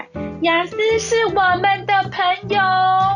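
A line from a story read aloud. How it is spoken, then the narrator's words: Excited proud children shouting. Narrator (Chinese): 其中一群小孩比别人更兴奋，他们骄傲地大喊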